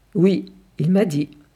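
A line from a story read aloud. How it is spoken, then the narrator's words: Calm widow answering. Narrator (French): répond la veuve calmement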